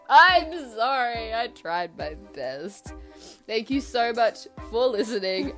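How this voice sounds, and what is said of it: Stuffy, congested voice. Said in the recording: “I sound so stuffy right now.”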